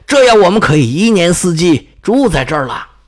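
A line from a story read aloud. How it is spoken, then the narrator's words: Shouting. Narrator (Chinese): 他们喊叫着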